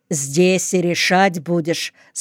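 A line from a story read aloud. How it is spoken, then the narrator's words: Plain. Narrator (Russian): спросил Толик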